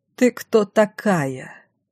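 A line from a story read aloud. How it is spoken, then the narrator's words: Cold question. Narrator (Russian): холодно спрашивала Пашина мама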